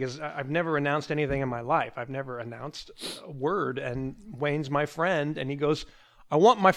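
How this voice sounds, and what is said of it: Usual voice. Nothing is said of it.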